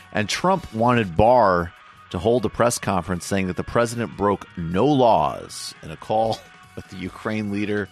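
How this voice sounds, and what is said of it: Slightly hoarse, strained voice. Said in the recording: “I think I'm losing my voice a little bit.”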